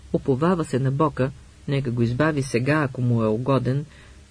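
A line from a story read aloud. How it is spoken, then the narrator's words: Plain. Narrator (Bulgarian): каза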